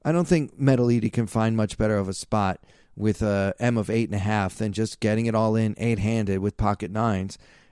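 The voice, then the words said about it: Sounds a little angry and tired. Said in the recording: “I know I sound a little angry. ... I'm a little bit tired”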